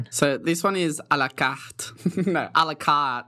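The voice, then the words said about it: Good French accent. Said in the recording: “your French accent's really good”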